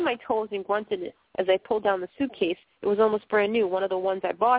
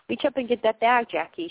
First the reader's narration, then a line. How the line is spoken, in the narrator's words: she said